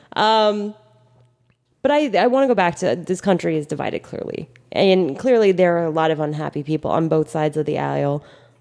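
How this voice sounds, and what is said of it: Vocal fry. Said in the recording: “There goes that vocal ... my vocal fry”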